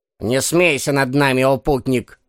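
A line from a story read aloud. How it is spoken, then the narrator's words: Plain. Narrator (Russian): ответил бородатый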